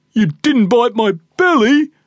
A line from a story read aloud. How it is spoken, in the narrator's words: moaned Red